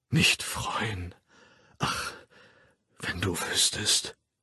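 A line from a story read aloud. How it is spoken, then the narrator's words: Whispered. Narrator (German): flüsterte er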